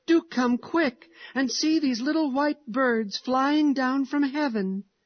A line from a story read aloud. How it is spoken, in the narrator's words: he cried joyfully